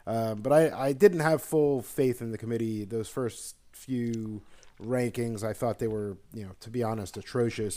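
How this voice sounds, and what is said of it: Sick, under-the-weather voice. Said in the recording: “apologize for my voice. A little under the weather.”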